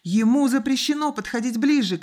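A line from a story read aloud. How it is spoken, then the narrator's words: Boy shouting. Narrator (Russian): крикнул мальчик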